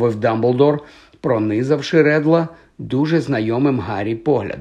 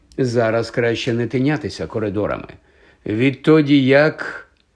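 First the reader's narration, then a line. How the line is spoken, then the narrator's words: Trailing off, heavy sigh. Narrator (Ukrainian): Не доказавши, він тяжко зітхнув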